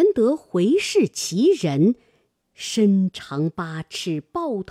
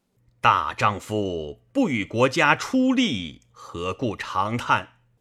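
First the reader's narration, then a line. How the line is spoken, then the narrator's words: Stern, harsh. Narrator (Chinese): 一人厉声言曰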